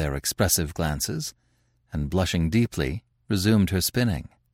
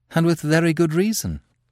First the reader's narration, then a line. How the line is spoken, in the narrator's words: replied his friend, laughing